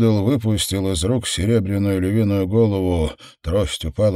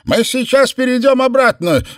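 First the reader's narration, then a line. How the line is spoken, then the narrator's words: Shouted. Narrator (Russian): закричал он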